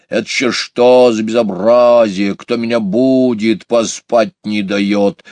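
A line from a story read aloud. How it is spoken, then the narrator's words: Angry hedgehog grumbling. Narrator (Russian): сердито заворчал еж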